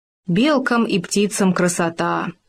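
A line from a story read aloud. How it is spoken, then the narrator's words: Sigh. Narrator (Russian): вздохнул Хома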